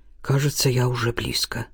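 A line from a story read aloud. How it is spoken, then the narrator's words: Quiet, over radio. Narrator (Russian): тихо сообщил он по рации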